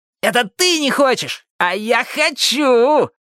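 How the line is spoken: Yelling. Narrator (Russian): завопил Джонни О

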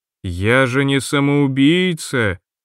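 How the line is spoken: Drawling. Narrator (Russian): протянула рыжая

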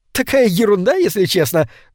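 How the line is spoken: Embarrassed giggle. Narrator (Russian): добавила она, смущенно хихикнув

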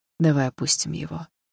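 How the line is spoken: Soft repetition. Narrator (Russian): мягко повторил Дима

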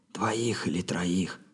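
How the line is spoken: Whispered reply. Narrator (Russian): также шепотом ответил Робин

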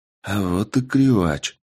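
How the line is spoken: Quiet speech. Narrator (Russian): негромко сказал Андрей

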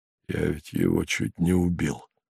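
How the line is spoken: Through gritted teeth. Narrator (Russian): сказал он сквозь зубы

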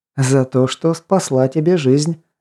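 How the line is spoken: Explaining after laughing. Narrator (Russian): отсмеявшись пояснила

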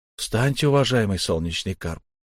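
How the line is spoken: Quiet young man. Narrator (Russian): негромко произнес молодой человек

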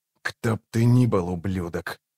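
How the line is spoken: Whispered. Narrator (Russian): прошептал

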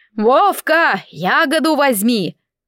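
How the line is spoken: Loud village-wide shout. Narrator (Russian): шумиха кричала на все село

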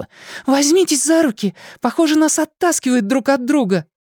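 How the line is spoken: Excited shout. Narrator (Russian): взволнованно крикнула

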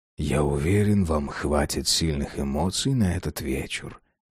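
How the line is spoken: Purring voice. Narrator (Russian): промурлыкал он

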